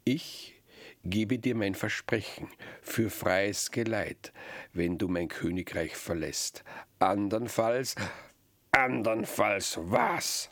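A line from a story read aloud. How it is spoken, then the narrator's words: Monster laughing. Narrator (German): lachte das Untier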